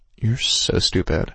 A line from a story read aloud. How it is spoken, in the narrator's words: I muttered wetly